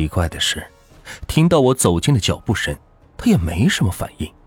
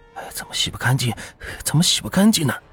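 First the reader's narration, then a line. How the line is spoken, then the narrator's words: Muttering quietly. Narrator (Chinese): 嘴里不停的小声嘟囔着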